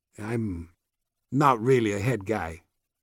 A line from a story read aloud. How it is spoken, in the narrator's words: Elefante said softly, almost to himself